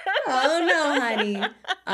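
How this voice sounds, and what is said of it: Impression of Pray Tell. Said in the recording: “Can't you just see Pray Tell being like ... Terrible impersonations from me.”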